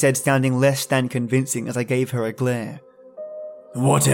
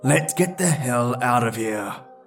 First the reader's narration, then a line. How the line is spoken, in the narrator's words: I growl